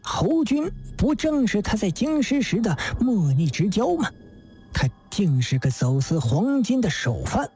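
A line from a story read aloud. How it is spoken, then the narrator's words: Near shriek of surprise. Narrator (Chinese): 狄仁杰几乎惊叫起来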